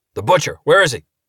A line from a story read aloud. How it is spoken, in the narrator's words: Ernie barked it